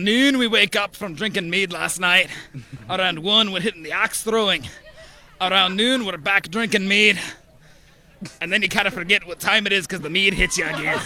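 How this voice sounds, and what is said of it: Put-on medieval Scottish-ish accent. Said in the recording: “What is the accent? ... We think Scottish? ... Irish? Scottish? ... It's just a medieval accent,”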